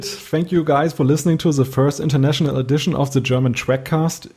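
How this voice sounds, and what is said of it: German accent. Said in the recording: “our German accents?”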